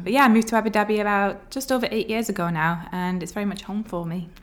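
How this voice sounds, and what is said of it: Mild northern English accent. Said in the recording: “where the accent's from ... I am from Bolton, which is just north of Manchester in England. I've had the accent sort of diluted, I guess, along the way.”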